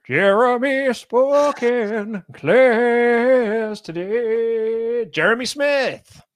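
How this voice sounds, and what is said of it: Sing-song announcing voice. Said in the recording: “do the voice ... that singing voice”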